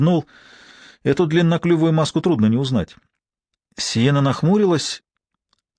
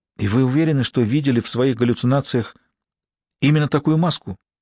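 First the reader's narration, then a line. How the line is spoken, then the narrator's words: Slightly trembling question. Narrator (Russian): чуть дрогнувшим голосом спросила Сиена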